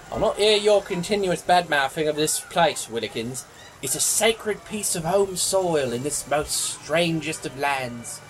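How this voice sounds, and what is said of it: Genuine English accent. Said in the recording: “your accent. It's really impressive is all ... your actual English accent”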